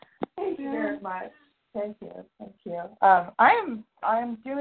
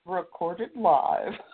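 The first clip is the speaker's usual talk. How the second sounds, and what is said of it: Imitates an automated announcement voice. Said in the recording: “I was mimicking it ... Very good impersonation of TalkShoe.”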